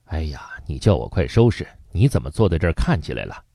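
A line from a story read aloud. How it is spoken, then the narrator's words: Muttering. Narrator (Chinese): 朱琳嘴里嘟囔着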